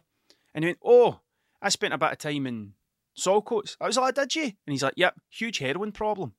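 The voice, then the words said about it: Scottish Ayrshire accent, Glasgow-like. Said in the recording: “It's the way I talk. ... I definitely have a bit of a Glasgow sound to me, but I'm not from Glasgow, I'm from Ayrshire ... the Ayrshire accent”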